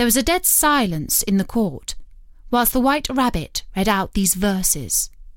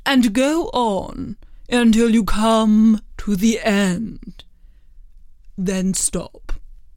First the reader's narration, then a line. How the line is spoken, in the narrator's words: the King said gravely